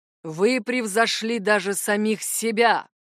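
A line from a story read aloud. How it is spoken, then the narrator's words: Booming, echoing. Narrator (Russian): Его голос прогремел под сводами гостиной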